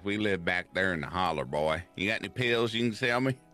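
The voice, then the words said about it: Put-on Kentucky country accent. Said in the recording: “my uh, country accent ... Kentucky accent, please ... Kentucky's more like”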